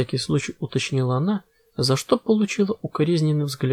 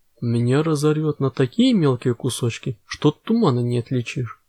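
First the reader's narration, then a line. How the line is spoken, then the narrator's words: Calm statement. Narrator (Russian): спокойно констатировал Арабидос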